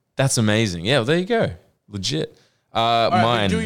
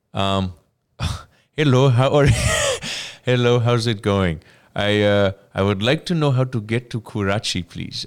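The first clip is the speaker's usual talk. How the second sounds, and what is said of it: Put-on Pakistani accent. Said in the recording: “do your packing ... my packing is, oh, accent”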